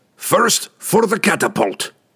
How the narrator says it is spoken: the dwarf cried in rage

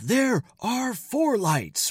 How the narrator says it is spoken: Picard delivers an epic, defiant scream

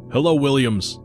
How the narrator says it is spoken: he shouted into the instrument

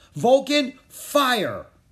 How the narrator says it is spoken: Rory yelled

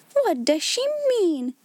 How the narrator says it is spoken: cried Miss Minchin to Miss Amelia

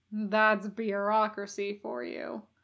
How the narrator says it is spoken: Crowley muttered

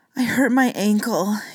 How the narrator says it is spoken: he gasped

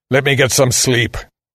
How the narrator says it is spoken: the man growled

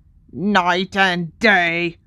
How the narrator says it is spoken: croaked Creature

